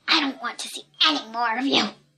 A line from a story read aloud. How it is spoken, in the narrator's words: he hissed